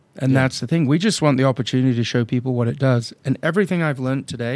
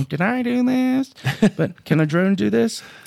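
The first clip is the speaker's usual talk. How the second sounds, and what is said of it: Urkel-style character voice. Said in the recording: “In my best Urkel accent”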